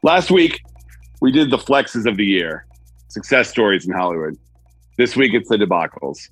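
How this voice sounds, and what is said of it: Muffled sounding voice. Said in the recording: “If I sound a little different today, left my recording equipment in LA. So if I sound a little muffled,”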